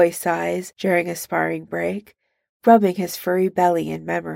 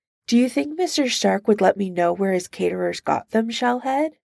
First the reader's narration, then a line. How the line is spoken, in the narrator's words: Iron Man laughs, the modulator flattening it out into a beep